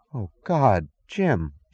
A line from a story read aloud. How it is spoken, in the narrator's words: she gasped